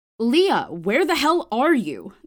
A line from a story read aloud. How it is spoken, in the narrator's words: the girl suddenly snapped into her phone